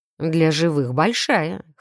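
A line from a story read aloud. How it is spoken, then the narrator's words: Snort close to ear. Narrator (Russian): хмыкнул наследник почти у самого уха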